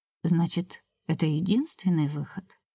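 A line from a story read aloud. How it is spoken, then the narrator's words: Quiet question. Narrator (Russian): тихо спросила Оспина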